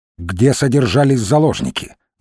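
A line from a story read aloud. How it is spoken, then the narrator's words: Sudden sharp quick question. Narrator (Russian): вдруг резко и быстро спросил он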